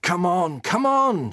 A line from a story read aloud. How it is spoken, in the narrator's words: shouted Dan